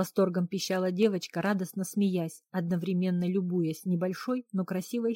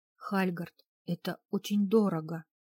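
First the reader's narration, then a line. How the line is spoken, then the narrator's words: Hoarse whisper. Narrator (Russian): сиплым голосом прошептала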